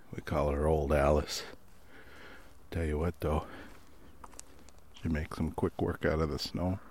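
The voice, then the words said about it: Rural country accent. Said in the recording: “Man, I sound country now.”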